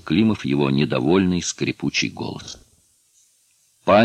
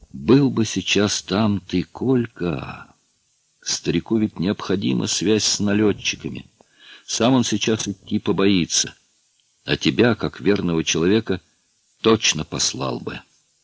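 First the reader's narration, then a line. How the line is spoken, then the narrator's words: Dreamy drawl. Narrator (Russian): повторил Климов и мечтательно протянул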